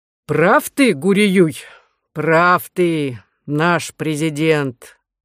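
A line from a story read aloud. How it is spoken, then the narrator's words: Deep guttural voice. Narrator (Russian): отозвался маршал Самсуний утробным голосом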